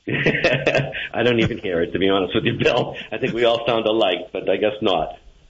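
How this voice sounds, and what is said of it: Boston accent. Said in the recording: “that Boston accent”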